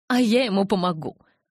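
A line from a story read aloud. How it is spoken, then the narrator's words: Spiteful threat. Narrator (Russian): злобно пригрозила Розали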